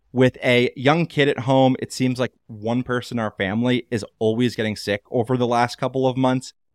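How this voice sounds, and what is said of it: Nasal, congested voice. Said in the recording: “You might hear that my voice is a little bit more nasally than usual this week”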